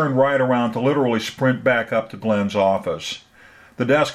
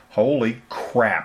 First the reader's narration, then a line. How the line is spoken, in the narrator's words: muttered